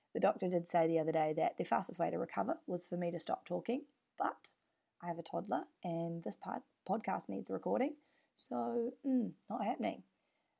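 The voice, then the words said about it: Hoarse, raspy voice. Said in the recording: “I have laryngitis. You are so welcome for this beautiful, sexy voice ... this beautiful, sexy tone in your ears”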